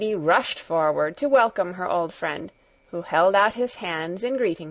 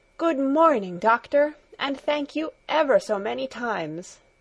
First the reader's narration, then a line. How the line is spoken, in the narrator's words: she exclaimed in the joy of her heart